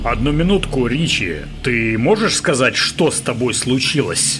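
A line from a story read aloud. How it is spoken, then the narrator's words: Plain. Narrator (Russian): спросил Генри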